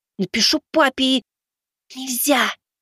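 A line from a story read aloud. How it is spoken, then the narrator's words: Hissing. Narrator (Russian): Зашипела зайка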